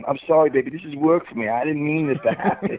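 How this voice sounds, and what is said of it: Fake English accent. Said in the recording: “that fake English accent.”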